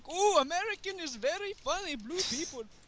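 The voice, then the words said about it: Exaggerated put-on Indian accent. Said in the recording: “Racist accent. ... That is a very racist Indian accent”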